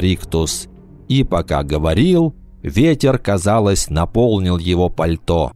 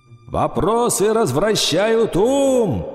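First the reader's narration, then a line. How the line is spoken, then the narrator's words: Shouting while flying away. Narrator (Russian): прокричал он, улетая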